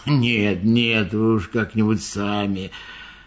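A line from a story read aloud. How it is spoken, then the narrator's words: Elephant's gruff grumble. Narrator (Russian): Слон буркнул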